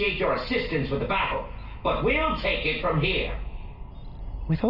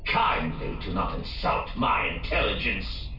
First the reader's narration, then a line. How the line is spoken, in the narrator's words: Roscoe growled